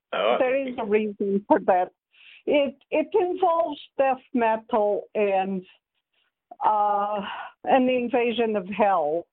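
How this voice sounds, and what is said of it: Unusual accent. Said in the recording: “I have a funny accent.”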